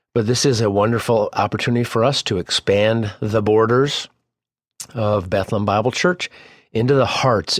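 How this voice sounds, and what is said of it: Congested voice from a cold. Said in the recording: “I have a little bit of a cold, a little bit of sniffle”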